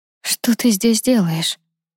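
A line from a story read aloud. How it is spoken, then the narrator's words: Tear-hoarse question. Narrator (Russian): хриплым от слез голосом спросила Лиза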